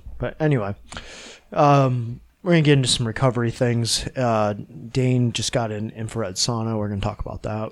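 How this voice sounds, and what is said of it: Nasal, congested voice. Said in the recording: “Sorry if I sound very nasally. I have some congestion.”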